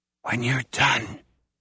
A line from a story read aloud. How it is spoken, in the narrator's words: Mouse whispers